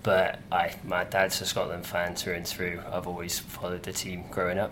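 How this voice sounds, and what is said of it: English accent. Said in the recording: “I unfortunately picked up the English accent”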